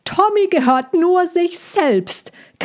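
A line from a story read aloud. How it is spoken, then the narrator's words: Screeching. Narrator (German): kreischte Cassandra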